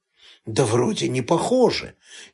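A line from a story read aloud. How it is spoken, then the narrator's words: Quiet waiter's answer. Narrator (Russian): тихо ответил официант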